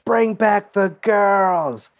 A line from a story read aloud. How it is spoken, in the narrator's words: Another heckler yells